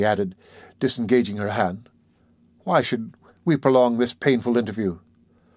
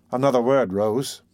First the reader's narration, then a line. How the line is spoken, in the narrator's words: said Harry